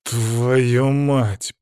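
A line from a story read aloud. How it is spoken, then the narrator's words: Growl. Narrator (Russian): прорычал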